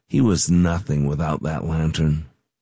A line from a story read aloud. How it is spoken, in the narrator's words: A few talked under their breath and said